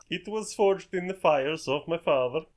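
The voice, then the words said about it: Put-on character accent. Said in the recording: “This accent is interesting.”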